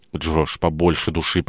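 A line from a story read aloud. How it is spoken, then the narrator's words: Whisper. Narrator (Russian): прошептала Мэгги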